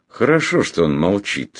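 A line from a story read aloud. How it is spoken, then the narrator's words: Calm. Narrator (Russian): спокойно сказал этот славный человек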